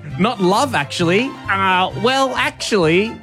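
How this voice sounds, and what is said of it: Nerdy geek character voice. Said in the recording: “you put well, in the voice ... that is a geek voice. That is a different voice to my normal voice.”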